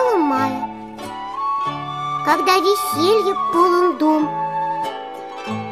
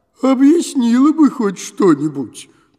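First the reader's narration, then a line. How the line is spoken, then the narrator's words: Grumbling, telepath. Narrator (Russian): проворчала телепаха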